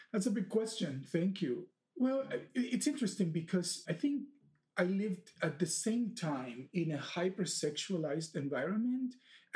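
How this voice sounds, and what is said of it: Dominican Republic Spanish accent. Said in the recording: “I hear the accent of the Dominican Republic. ... Which is a little different from the Spanish one.”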